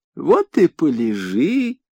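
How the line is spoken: Gentle purring. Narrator (Russian): ласково промурлыкала страусиная нога

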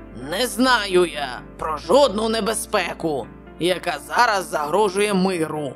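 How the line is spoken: Growled. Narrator (Ukrainian): прогарчав Челленджер

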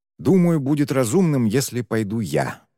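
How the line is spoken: Sighing. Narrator (Russian): вздохнул Шен

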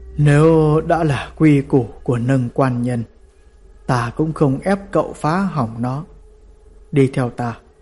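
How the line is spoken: Sighing old man. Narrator (Vietnamese): Triệu lão già thở dài nói

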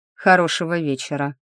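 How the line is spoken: Cold. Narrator (Russian): произнес холодно Сильф

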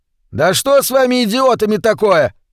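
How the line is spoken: Yell. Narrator (Russian): заорал он

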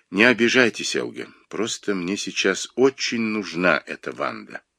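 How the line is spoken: Said quietly. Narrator (Russian): сказал тихо

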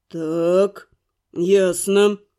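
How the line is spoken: Through gritted teeth. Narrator (Russian): процедил парень

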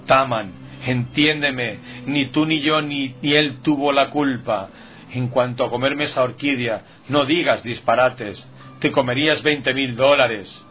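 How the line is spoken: Cousin pleading. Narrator (Spanish): suplicó el primo Guillermo

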